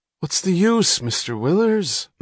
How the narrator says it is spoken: moaned the engineer

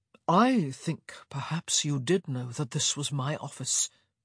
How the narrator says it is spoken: he murmured

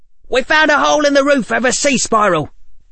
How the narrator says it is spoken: someone shouted from the doorway

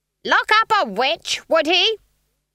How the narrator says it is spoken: Granny shouted at the trees

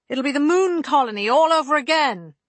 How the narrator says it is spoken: Holston snapped

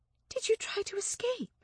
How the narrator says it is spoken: she whispered

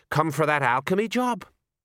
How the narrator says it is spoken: A dwarf smiled nervously

